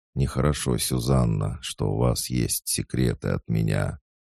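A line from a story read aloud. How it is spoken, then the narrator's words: Sudden quiet. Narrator (Russian): Вдруг он тихо сказал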